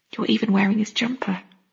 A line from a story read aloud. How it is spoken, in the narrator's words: I added softly